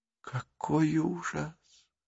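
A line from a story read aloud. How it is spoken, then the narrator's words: Girl moaning. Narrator (Russian): простонала девочка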